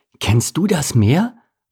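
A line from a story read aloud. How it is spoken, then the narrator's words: Excited. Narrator (German): wandte er sich aufgeregt an den Karpfen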